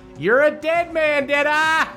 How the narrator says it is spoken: Waylon just yells out

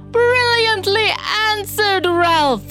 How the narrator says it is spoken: Dory exclaimed

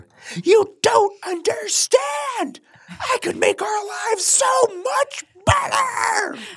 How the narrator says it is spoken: Egon kept screaming at her

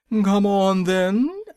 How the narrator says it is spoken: roared the queen

